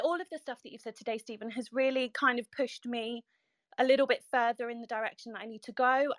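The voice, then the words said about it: British accent. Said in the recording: “you have a British accent, so you you sound more ... intelligent.”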